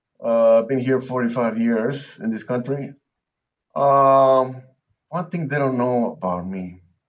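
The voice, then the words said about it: Peruvian-accented English. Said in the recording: “this accent is not from Texas. I'm from Lima, Peru.”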